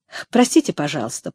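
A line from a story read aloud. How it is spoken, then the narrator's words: Contrite tone. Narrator (Russian): проговорил он покаянным тоном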